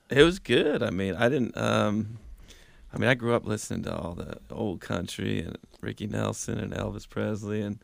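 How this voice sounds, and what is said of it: Brooklyn accent. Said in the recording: “that Brooklyn accent of yours”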